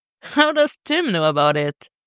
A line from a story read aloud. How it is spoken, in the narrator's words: She laughs